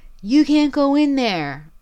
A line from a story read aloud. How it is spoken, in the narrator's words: Tyler yells at him